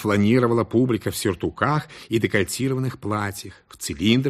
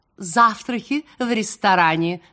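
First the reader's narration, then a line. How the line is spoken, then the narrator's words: Cooing, imitated voice. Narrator (Russian): Повторяя приемы своей сменщицы, девица тем же голосом проворковала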